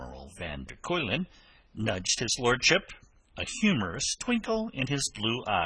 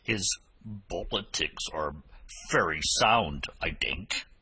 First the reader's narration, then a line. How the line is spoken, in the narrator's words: he growled